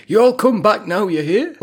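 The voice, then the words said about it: Put-on American accent. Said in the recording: “an American accent”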